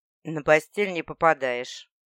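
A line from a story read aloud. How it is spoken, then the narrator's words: Mocking comment. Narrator (Russian): прокомментировали насмешливо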